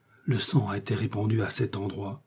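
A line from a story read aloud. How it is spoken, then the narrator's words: Old servant, low voice. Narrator (French): répondit la vieille servante à voix basse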